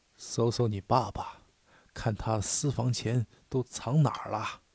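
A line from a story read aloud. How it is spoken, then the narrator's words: Whispering. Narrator (Chinese): 妈妈附在他的耳边低声说道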